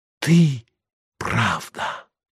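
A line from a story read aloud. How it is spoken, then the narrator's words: Whisper. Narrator (Russian): снова прошептала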